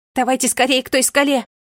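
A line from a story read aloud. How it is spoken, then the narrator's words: Shouted. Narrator (Russian): крикнула Мерле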